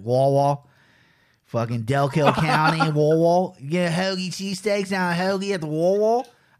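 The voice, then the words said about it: Poor put-on Philly accent. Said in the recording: “I used to be able to do a Philly accent. ... I can't do it anymore. It's terrible.”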